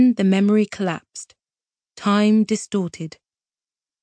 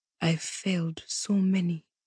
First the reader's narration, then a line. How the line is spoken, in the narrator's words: she whispered